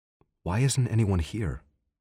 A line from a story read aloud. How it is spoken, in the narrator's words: Peter asked